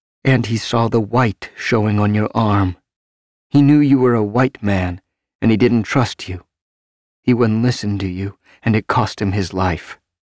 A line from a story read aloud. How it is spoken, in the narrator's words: Bitterly, her lips twisting, she said